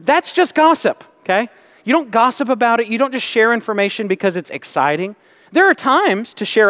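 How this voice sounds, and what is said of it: Usual voice. Nothing is said of it.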